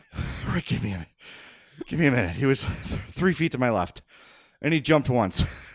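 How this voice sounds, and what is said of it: Out of breath, panting speech. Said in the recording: “I'm out of breath. ... I am sweating profusely.”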